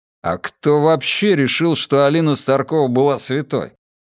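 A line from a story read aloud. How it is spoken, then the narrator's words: Grumbled. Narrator (Russian): проворчал Матиас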